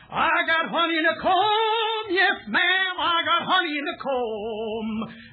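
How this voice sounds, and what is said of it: Southern American accent. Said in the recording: “Southern accent ... that's the only accent our man's got ... distinctly Southern”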